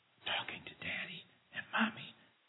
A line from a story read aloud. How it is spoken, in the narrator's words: came the whispered answer